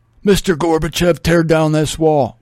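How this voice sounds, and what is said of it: Imitates another person's voice. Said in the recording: “My Reagan imitation sucks too.”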